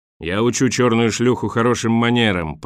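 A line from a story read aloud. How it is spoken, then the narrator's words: Roaring. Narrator (Russian): проревел Борис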